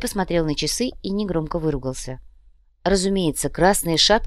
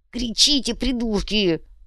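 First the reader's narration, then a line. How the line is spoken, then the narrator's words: Hissed. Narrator (Russian): зашипел Умций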